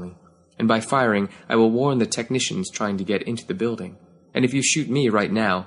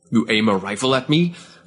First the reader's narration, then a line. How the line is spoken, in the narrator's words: Avkanan spat